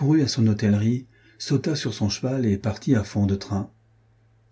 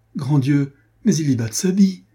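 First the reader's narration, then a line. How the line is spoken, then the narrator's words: Cried out. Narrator (French): s'écria Marguerite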